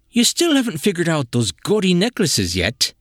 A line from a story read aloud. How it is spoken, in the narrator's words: Eric sighed